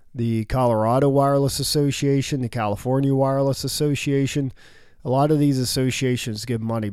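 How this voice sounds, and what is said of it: Rough, hoarse voice. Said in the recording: “my voice is a little rough, I'm sorry. I'm just getting over pneumonia.”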